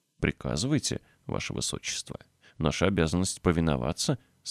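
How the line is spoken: Plain. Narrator (Russian): сказал лорд Гетфорд

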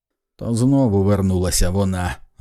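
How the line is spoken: Barked. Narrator (Ukrainian): гаркнув

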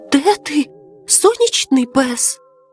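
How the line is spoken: Whispered. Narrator (Ukrainian): прошепотів Капулє

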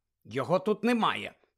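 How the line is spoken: Angry reply. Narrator (Ukrainian): сердито відповіла та

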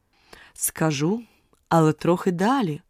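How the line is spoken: Plain. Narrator (Ukrainian): відповіло оленя

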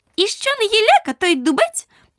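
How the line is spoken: Squeaky daisy voice. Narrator (Ukrainian): пропищала стокротка

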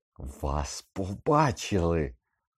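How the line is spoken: Hissing. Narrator (Ukrainian): просичав

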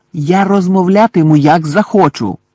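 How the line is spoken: Exclaimed, losing control. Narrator (Ukrainian): вигукнув Гаррі, втрачаючи самовладання

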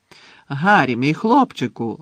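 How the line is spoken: Exclaiming. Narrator (Ukrainian): вигукнув Слизоріг, побачивши його

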